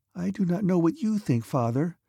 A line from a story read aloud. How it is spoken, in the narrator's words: whispered the princess